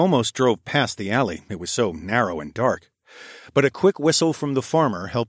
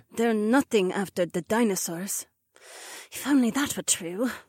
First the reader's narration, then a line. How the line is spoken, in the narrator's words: the blonde sighed